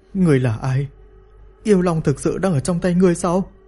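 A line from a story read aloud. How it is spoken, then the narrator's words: Trembling question. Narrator (Vietnamese): Lý Mặt Dỗ run rẩy hỏi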